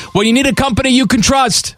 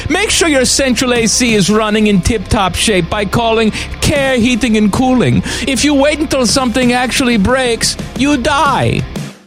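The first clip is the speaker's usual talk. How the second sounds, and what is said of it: Faltering put-on accent. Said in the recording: “This accent has taken a crap.”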